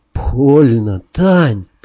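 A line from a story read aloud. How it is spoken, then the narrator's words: Complaining, moaning. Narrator (Russian): пожаловался я и снова застонал без слов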